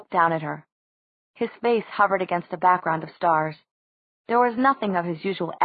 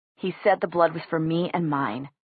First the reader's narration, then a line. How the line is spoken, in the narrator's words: Jay said quietly